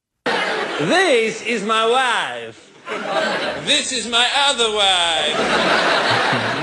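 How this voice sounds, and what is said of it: Imitates Borat character voice. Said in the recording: “do my best to impersonate them ... my impression suggestion is ... the beloved character of Borat”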